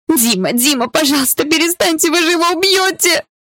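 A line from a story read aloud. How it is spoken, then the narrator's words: Scream turning into sobbing. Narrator (Russian): Мой крик перерос в рыдание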